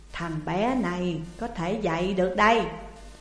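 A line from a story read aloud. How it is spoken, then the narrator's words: Old man, smiling. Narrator (Vietnamese): Ông lão mỉm cười nhìn Trương Lương rồi nói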